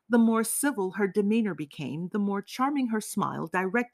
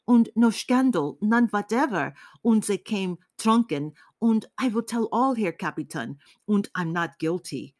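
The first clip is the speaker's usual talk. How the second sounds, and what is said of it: Heavy German accent, rapid rattling. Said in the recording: “rattled out all of a sudden, as if scattering peas with a heavy German accent”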